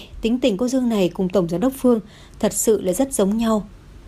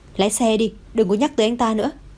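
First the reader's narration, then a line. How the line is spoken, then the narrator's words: Cold. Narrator (Vietnamese): Dương Yến lạnh lùng nói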